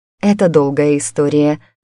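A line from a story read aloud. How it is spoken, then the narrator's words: Sigh. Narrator (Russian): вздохнула я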